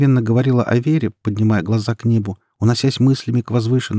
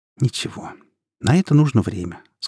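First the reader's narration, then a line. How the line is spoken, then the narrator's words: Tender. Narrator (Russian): сказала Юля, нежно глядя ему в глаза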